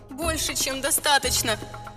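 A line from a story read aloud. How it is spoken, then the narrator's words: Silent mental shout. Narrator (Russian): мысленно закричала ему я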